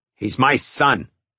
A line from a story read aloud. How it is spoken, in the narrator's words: Sal said angrily